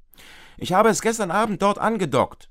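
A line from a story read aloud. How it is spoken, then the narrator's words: Calling from the kitchen. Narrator (German): ruft Papa aus der Küche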